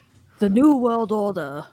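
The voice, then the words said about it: Put-on accent. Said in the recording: “That's my best accent.”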